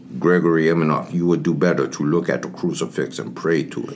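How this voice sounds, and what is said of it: Put-on Russian accent. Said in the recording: “That's the Colonel Russian accent.”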